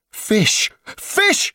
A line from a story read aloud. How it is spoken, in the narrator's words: he cried